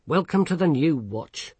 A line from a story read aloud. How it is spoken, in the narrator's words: snapped Vimes